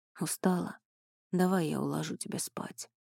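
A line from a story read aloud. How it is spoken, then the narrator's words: Soft gentle offer. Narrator (Russian): мягко предложил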